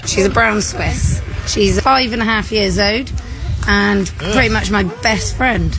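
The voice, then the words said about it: British accent. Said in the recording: “her disgusting British accent ... British ... British voices it's like nails on a chalkboard”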